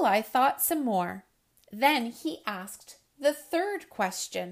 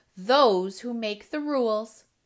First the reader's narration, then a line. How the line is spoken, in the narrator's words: growled Pushkin